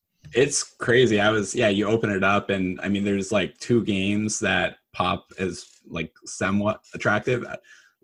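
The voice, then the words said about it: Raspy voice from a cold. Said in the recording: “battling a cold this week. So apologize for my raspy voice”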